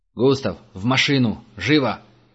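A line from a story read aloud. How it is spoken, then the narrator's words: Barked command. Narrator (Russian): рявкнул Герман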